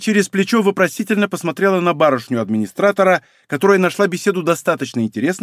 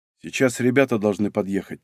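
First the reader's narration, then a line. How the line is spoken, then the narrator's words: Quiet. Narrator (Russian): тихо добавил Игорь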